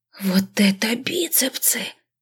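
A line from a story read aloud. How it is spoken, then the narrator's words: Whisper. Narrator (Russian): прошептала подруга Марина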